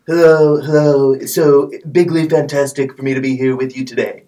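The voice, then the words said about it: Donald Trump impression. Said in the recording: “Mr. Trump from the White House ... doing a wonderful Trump impersonation.”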